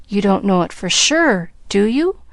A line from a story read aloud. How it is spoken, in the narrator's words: besought the little girl anxiously